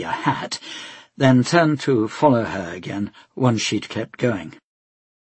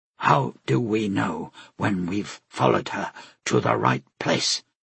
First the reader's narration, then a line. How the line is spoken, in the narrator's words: Tenik asked quietly